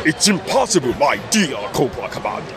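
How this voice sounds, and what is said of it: Destro villain character voice. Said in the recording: “my Destro impression”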